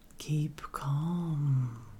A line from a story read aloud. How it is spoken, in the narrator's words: it cooed